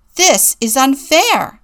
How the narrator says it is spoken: he shouts

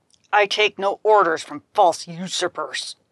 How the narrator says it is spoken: snarled Hoplite

